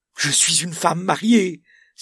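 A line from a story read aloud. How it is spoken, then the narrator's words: Exclaiming. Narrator (French): s'écria-t-elle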